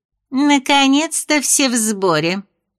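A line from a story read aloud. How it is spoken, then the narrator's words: Snide sarcastic remark. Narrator (Russian): Мисс Мэпс ехидно заметила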